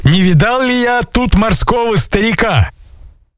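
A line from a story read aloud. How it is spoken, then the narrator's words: Shouted. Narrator (Russian): купцы закричали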